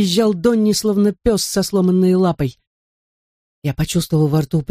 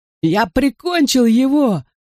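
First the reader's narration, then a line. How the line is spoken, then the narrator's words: High frenzied shriek. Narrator (Russian): Завизжал он высоким и безумным голосом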